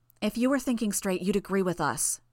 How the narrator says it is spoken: Genesis said

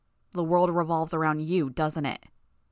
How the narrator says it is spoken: Bitch snapped

